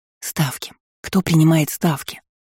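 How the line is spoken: Hissing into ear. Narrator (Russian): Зашипела я на ухо Карху

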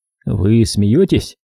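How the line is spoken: Incredulous snort. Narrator (Russian): фыркнул я

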